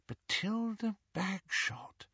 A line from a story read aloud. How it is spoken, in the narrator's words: murmured Hermione